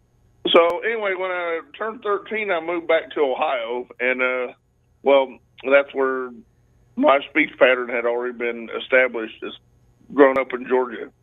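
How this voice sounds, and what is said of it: Georgia Southern drawl with twang. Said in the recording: “that's a Georgia accent. It's a Georgia drawl. ... that twang”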